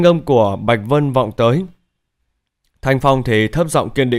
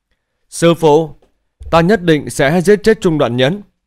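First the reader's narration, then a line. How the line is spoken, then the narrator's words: Desolate loud cry. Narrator (Vietnamese): Bóng lưng tiêu điều, Thanh Phong lớn tiếng kêu lên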